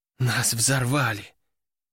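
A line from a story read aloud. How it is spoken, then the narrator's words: Sighing. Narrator (Russian): вздохнула Кобра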